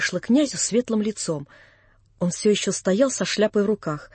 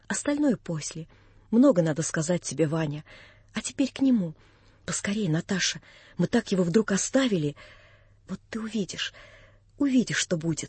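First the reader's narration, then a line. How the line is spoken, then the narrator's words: Hurried whisper. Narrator (Russian): наскоро шепнула она мне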